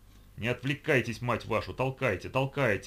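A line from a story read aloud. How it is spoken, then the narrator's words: Barked command. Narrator (Russian): гаркнул капитан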